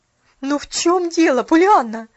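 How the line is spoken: Desperate exclamation. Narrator (Russian): в отчаянии воскликнула миссис Керри

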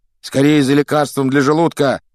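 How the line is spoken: Shouted. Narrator (Russian): крикнул Рон

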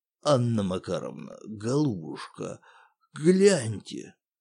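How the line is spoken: Husky voice, building manager. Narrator (Russian): Сиплым голосом произнес управдом

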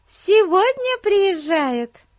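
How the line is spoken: Cheerful. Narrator (Russian): весело сказала Бетси

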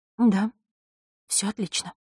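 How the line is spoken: Trembling whisper. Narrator (Russian): прошептала она, и голос ее задрожал под холодным, изучающим взглядом Мартиновой

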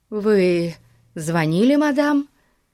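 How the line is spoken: Slightly trembling question. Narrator (Russian): спросила она слегка дрожащим голосом

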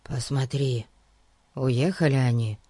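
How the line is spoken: Whisper. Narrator (Russian): шепнул девочке Фати

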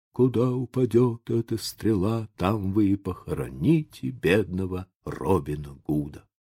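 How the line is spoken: Dying man's whisper. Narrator (Russian): умирающий Робин Гуд прошептал

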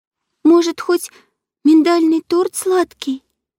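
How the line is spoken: Uncertain guess. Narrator (Russian): неуверенно предположила Матильда

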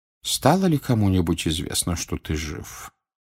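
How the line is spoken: Quiet question. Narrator (Russian): тихо спросил Дамблдор

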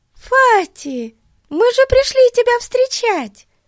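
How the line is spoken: Exclamation. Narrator (Russian): воскликнула Бетси

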